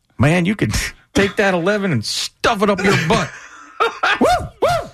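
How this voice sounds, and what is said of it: Usual voice. Nothing is said of it.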